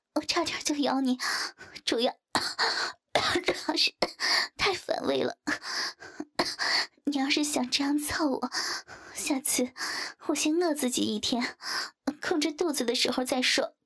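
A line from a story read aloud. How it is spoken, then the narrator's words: Breathless. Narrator (Chinese): 林冰大口喘了几下，道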